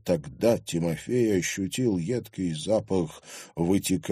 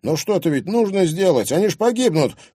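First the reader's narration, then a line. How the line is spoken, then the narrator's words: Urgent shouting. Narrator (Russian): крикнул Тимофей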